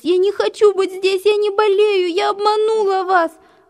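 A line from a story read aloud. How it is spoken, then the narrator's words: Sobbing. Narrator (Russian): Рыдала она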